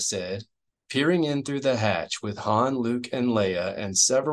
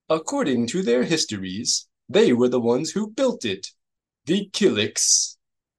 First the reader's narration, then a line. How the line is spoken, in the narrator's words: Dooku Gray gasped